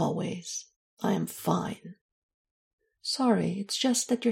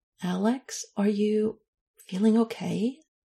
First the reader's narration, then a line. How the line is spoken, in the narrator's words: She asked a little hesitantly